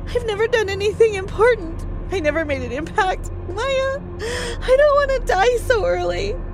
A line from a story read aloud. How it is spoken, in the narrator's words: sobbed